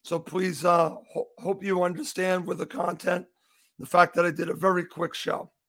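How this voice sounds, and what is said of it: Slightly hoarse voice. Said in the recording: “I am a little hoarse here”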